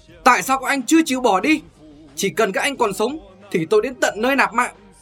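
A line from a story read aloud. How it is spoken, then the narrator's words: Screamed. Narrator (Vietnamese): Thiết giáp kim cương thét lên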